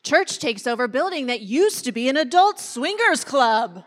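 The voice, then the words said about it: Put-on news reporter voice. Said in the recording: “put on my media voice ... I've never been in media ... I'm going to use my real voice. That's super weird.”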